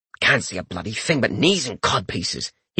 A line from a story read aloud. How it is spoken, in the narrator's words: he grumbled